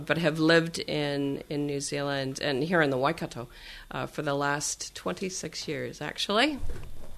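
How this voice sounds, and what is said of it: American accent. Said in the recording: “if you haven't picked up on the accent, I'm not not originally from New Zealand, from the U.S. in Seattle.”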